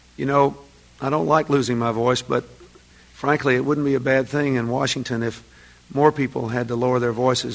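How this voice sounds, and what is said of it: Slightly hoarse voice. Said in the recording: “If I sound a little hoarse today, it's because I haven't completely recovered my voice”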